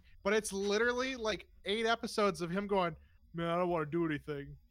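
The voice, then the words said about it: Impersonates a TV character's voice. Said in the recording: “Spot on impersonation.”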